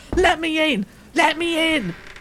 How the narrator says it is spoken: bellowing

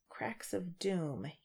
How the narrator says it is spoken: he muttered

